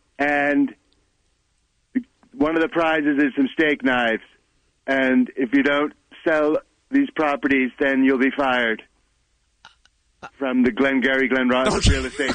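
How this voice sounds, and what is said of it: Not very good impression of an actor. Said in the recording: “Pretty famous role for Alec Baldwin ... it's not a very good, very good impression”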